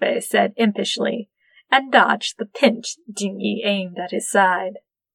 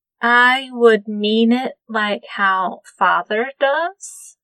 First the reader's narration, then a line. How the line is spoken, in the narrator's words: Sushui said slowly